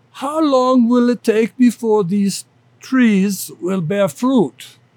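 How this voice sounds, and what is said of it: Poor imitation of German accent. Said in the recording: “my German accent's terrible, so I won't even try, but he said, well, I will try.”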